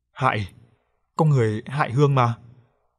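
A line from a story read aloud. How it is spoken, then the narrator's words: Ghost stammering in pain. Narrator (Vietnamese): vong hồn của anh Hiệp với vẻ mặt đau đớn lắp bắp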